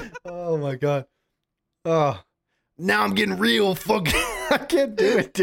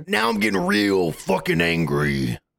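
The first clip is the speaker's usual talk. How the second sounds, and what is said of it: Loud Hulk Hogan impression. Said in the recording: “Hulk Hogan. ... So loud.”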